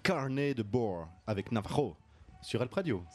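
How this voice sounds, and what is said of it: Put-on unusual accent. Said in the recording (French): “C'est quoi cet accent ... j'ai essayé de faire un truc, un petit effet sonore”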